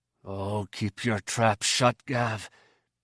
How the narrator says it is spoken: he whispered desperately

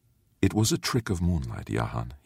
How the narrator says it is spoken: whispered

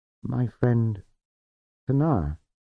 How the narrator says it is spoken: he said

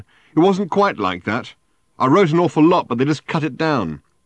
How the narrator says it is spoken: said Ford, having to shout now above the din

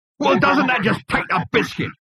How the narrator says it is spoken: It roared

